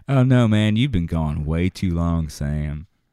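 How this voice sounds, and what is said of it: Weak imitated Southern accent. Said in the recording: “I can't do her accent very well ... she's from Valdosta ... she's a Southern oddball”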